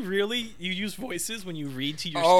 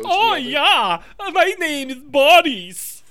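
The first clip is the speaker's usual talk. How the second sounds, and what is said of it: Mock German-sounding accent. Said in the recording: “I try to do a Russian accent, and right now Boris is German ... That's exactly what the accent is.”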